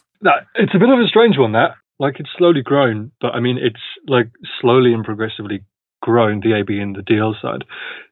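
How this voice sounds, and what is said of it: British accent. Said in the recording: “I don't know if you can tell from the accent, but from the UK.”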